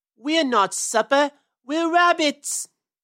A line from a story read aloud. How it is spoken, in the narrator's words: yelled Peter